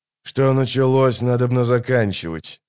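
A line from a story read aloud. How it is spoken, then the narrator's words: Gruff mutter. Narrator (Russian): буркнул Геральт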